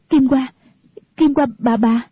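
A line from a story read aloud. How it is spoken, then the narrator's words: Panicked stammering. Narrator (Vietnamese): Kỷ Hữu Phù hốt hải, mặt tái nhợt, nói lắp bắp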